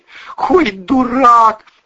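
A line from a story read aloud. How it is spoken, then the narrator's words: Shrieking inner voice. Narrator (Russian): завизжал кто-то в его голове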